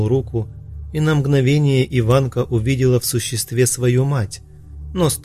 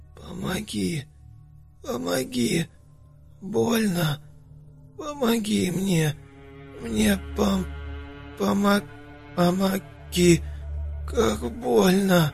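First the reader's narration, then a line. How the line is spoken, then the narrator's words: Creature moaning on and on. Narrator (Russian): Все стонало и стонало существо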